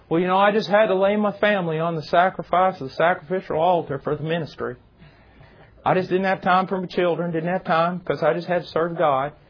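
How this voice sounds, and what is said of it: Southern preacher voice. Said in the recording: “that's a good impersonation, isn't it, for somebody from South?”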